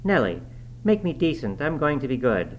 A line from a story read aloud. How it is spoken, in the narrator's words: having screwed up his courage, exclaimed abruptly